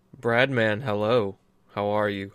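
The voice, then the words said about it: Quiet, low speaking voice. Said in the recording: “I'm speaking in a low voice as not to overload everybody else's mic”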